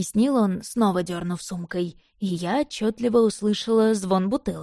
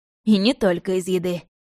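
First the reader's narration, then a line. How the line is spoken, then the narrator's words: Scoffing. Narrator (Russian): хмыкнул Березин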